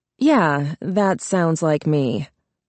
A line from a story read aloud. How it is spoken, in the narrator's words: Charlie said dryly